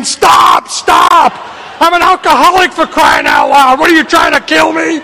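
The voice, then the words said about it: Screaming, shouted pleading. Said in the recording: “I'm screaming”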